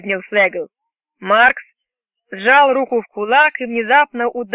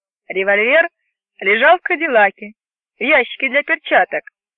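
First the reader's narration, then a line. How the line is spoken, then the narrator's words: Dry. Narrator (Russian): сухо ответил капитан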